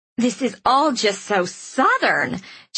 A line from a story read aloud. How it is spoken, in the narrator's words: she'd gushed happily